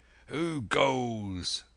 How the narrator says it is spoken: with a mighty oath the voice of Silver cried

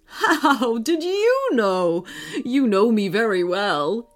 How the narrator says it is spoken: laughed

